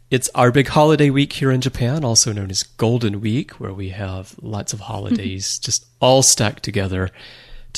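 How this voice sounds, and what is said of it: Strained, sore-throated voice. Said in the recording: “As you can probably tell from my voice, my throat isn't doing all that well this week”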